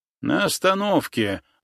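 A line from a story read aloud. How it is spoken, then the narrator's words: Rude reply. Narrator (Russian): грубо ответил мне водитель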